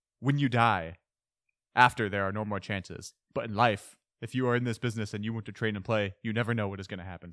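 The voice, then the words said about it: Accented impression of Guardiola quote. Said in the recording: “doing um accents ... impressions”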